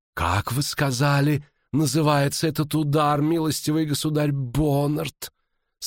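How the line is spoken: Sultry hoarse rasp. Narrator (Russian): сексуально прохрипела маркиза Денеменс Уйвар

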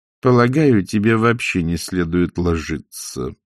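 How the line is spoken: Mother, through gritted teeth. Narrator (Russian): процедила матушка

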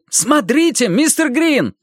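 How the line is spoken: Sudden shout. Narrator (Russian): вдруг крикнул Мэтью

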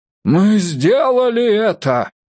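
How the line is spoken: Shout from behind. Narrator (Russian): крикнул кто-то сзади

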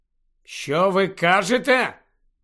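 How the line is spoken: Loud question. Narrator (Ukrainian): голосно запитав він

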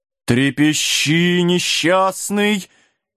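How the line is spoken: Ghost's uncertain drawl. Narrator (Russian): неуверенно протянул призрак

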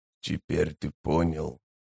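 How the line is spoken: Wheezing, breath-broken speech. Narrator (Russian): продолжил незнакомец, чью речь то и дело прерывали сиплые хрипящие вздохи

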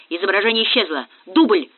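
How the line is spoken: Shout. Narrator (Russian): крикнул Молчанов

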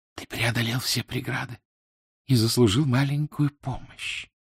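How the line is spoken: Whispered. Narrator (Russian): прошептала она

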